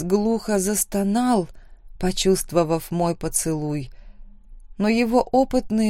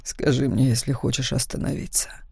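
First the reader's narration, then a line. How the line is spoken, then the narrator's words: Whispered against lips. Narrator (Russian): прошептал Макс мне в губы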